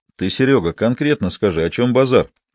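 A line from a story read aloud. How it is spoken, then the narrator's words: Calm, from corner. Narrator (Russian): спокойно проговорил из своего угла Термикалев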